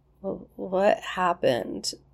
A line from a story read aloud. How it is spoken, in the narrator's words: Shepard asked, his words thick and slurred